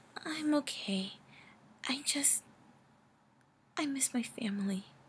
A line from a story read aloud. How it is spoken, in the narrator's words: the female whimpered out, sniffling softly